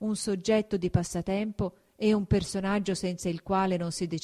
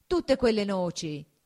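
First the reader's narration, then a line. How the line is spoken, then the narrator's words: Exclaiming. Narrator (Italian): esclamò Agnese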